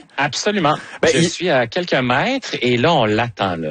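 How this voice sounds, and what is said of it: Put-on Parisian French accent. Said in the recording (French): “je commence à prendre un petit peu l'accent, comme qu'on dit... Ça vous va tellement bien”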